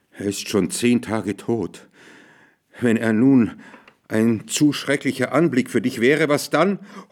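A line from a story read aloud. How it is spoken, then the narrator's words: Old man, trembling voice. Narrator (German): Der alte Mann sprach mit bebender Stimme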